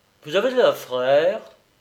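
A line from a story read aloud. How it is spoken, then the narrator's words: Drowsy, strained grumble. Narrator (French): Le blessé parut faire un grand effort de pensée et il grommela d'une voix dormante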